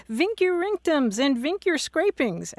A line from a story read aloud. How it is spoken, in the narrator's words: a student shouting